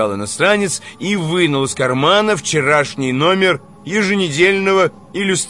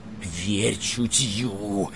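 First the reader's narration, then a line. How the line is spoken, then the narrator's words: Hoarse wheeze in ear. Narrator (Russian): засипел ему в ухо Иван Николаевич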